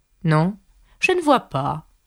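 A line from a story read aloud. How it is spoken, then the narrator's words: Plain. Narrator (French): répondit la chenille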